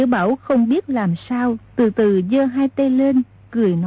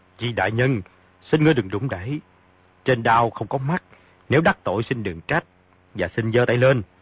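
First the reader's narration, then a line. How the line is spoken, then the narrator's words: Shouted threat. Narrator (Vietnamese): Phong Tế Trung lại quát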